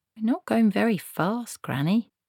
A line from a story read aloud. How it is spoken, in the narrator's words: said Esk meekly